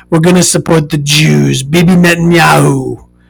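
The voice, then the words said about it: Imitates another person's voice. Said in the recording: “that's my Trump voice ... I do my best Donald Trump impression.”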